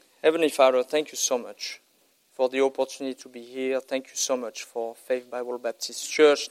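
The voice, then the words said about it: French accent. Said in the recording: “They didn't come here to hear a French accent.”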